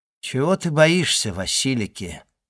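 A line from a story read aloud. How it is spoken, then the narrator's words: Soft, tender yet proud. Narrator (Russian): ответил Селим, мягко, ласково и в то же время гордо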